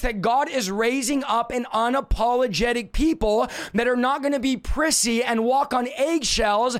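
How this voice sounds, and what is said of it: Strained voice giving out. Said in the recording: “as I lose my voice”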